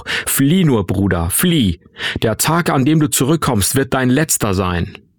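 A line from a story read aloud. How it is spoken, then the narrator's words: Bellowing upward. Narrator (German): brüllte er zu mir hoch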